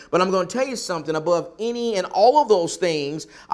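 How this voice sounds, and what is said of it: Southern US accent. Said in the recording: “I'm from the South because of my accent”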